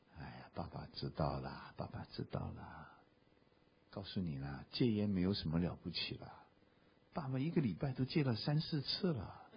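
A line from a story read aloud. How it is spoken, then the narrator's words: Meek humble voice. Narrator (Chinese): 他低声下气的跟我们说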